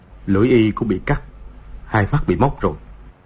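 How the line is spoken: Soft. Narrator (Vietnamese): Từ Thiên Xuyên khẽ nói

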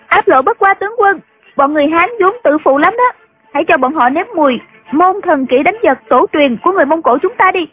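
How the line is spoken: Loud. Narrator (Vietnamese): Triệu Mẫn lớn tiếng nói

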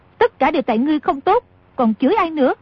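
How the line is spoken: Angry. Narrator (Vietnamese): A Kha tức giận nói

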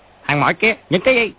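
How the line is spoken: Soldiers shouting. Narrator (Vietnamese): Hai tên lính ... quát

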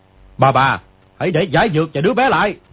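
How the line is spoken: Shouted. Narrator (Vietnamese): người kia quát

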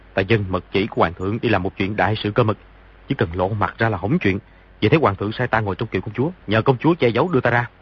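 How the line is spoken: Lowered voice. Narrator (Vietnamese): Di Tiểu Bảo hạ giọng nói

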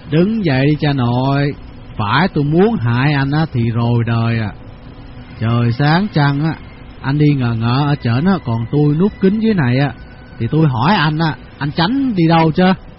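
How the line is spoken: Smiling speech. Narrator (Vietnamese): Tư Cầu bắt mỉm cười

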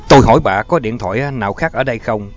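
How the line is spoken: Sharp shout. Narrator (Vietnamese): Ness đã quát lên

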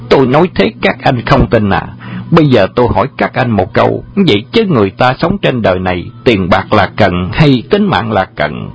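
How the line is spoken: Childish voice. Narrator (Vietnamese): Bá Thông nói giọng trẻ con

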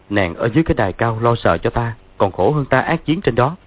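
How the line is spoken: Smiling. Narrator (Vietnamese): Dương Quá mỉm cười nói

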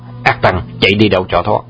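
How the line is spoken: Loud shout. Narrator (Vietnamese): Vương Trùng Dương quát to

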